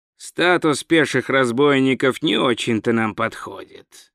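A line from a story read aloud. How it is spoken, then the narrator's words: Sighed. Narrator (Russian): вздохнул варвар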